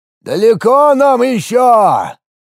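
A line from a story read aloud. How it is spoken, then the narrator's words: Shouted from a distance. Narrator (Russian): крикнул с соседней лодки отец Семиса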